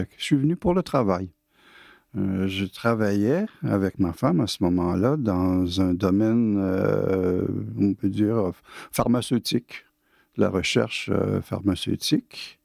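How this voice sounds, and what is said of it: Québécois French accent. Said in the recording (French): “D'après mon accent, vous allez bien deviner que je ne suis pas français. Je suis canadien, je suis né à Québec ... un peu trop formaté pour changer mon accent.”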